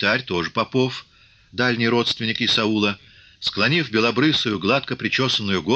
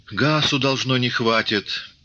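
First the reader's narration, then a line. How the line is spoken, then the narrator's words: Regretful sigh. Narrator (Russian): вздохнул кто-то сожалеюще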